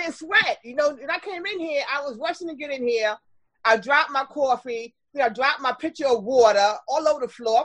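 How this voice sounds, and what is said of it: New York Brooklyn accent. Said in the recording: “Can you hear that accent? ... Yeah, I'm Brooklyn ... I can't get rid of it. ... I know you have a New York accent”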